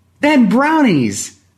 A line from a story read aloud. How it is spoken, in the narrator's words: Jakey cried